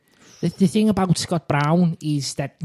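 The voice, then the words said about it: Put-on accent. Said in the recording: “I'm going to attempt an accent ... I'll stop the accent. I thought it was okay.”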